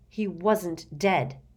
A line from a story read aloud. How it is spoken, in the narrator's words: said Harry angrily